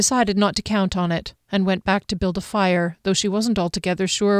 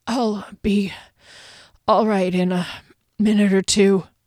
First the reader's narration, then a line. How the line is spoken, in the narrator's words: Derry choked out